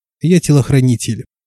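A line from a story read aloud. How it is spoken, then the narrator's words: Matter-of-fact tone. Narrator (Russian): будничным тоном произнесла я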